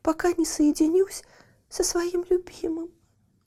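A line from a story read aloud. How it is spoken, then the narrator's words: Sobbing. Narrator (Russian): всхлипывала она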